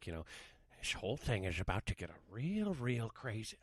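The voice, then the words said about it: Impression drifting into Paul Giamatti. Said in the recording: “you're slipping into Paul Giamatti”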